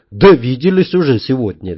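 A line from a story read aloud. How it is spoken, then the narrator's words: Cheerful reply. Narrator (Russian): весело ответил я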